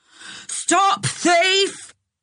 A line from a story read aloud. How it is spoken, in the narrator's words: he yelled